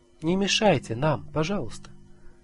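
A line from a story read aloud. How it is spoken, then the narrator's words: Gentle, meek. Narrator (Russian): скажут ласково и кротко, как тот человек в чуйке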